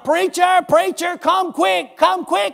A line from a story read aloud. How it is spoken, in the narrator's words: they would holler